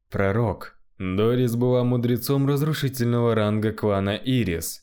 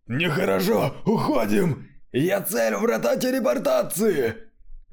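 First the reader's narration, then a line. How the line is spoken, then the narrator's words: Several voices shouting. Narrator (Russian): Несколько черных магов закричали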